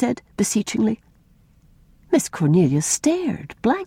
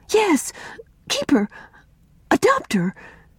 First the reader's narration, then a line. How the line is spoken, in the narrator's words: said Una eagerly, gaining courage now that the ice was broken